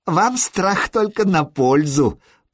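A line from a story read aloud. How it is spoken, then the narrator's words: Giggling. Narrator (Russian): Прорвич хихикнул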